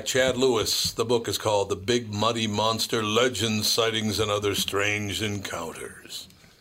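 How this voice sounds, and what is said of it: Put-on scary voice. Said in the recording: “That was my scary voice.”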